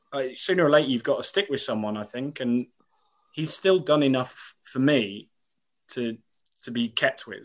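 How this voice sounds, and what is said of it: Frustrated, angry tone. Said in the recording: “I'm frustrated, as you can probably tell by my tone on this tonight, and I'm angry”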